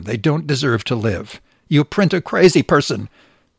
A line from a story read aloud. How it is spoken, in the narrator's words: she said